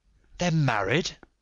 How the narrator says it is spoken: I gasped

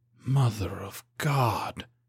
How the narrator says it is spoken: breathed

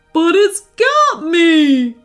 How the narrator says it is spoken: squealed Birdo again

